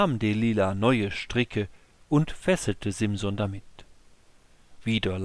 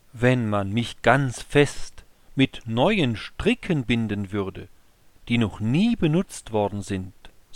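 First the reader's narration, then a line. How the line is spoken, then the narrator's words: Plain. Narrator (German): sagte Simson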